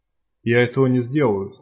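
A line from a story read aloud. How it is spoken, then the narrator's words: Calm. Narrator (Russian): спокойно решил Рябой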